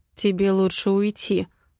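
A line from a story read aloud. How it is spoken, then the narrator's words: Muffled. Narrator (Russian): глухо произносит он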